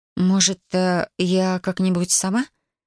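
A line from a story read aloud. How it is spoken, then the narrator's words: Unsure mumble. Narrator (Russian): неуверенно пробормотала я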